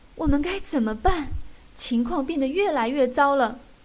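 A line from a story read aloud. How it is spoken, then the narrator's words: Crying, worried. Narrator (Chinese): 克里姆太太哭着说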